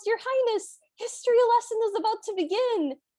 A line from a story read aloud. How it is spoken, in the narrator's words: the tutor from a distance he yells